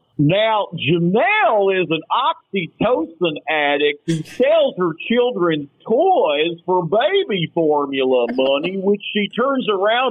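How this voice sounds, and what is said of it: Imitates another person's voice. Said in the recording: “impersonations? ... I used to do a Dr. Phil”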